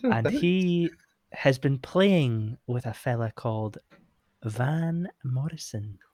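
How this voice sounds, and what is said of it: Gentle Scottish accent. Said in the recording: “I'm doing this gentle accent because Montrose is a place in Scotland”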